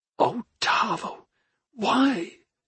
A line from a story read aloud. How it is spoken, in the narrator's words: she whispered to herself, saddened by both possibilities